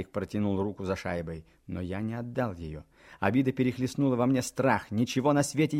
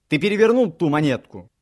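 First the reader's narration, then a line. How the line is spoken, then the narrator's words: Shouting. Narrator (Russian): крикнул я ему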